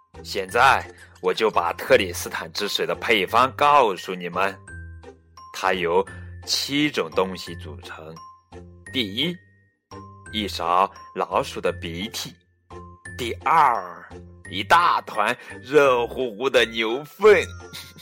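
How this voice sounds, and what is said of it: Loud, booming storytelling voice. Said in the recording (Chinese): “小声点儿，我们听得到。”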